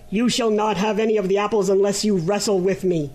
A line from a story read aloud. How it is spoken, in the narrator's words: exclaimed the griffin angrily